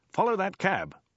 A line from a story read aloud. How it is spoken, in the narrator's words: exclaimed Dirk